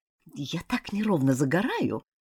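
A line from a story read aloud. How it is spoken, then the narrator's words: Annoyed mutter. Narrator (Russian): пробормотала она с досадой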